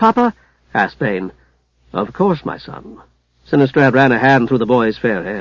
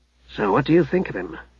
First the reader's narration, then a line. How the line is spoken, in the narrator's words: Hugh asked Haplo in an undertone